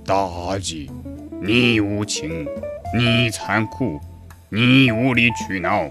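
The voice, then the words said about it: Imitation of King Zhou's voice. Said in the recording (Chinese): “模仿，因为那个时候声音很嫩哈。现在学可能会更像一点儿，比如说用这个《封神榜》当中的纣王的口音 ... 是不是有没有那味儿了？”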